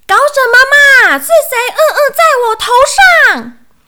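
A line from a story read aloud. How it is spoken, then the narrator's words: Angry yelling. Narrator (Chinese): 小鼹鼠气得哇哇大叫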